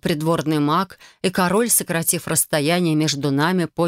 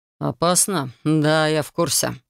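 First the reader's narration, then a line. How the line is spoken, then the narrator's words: Snorting. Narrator (Russian): хмыкнул Рион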